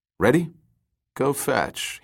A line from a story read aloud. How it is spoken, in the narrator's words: murmured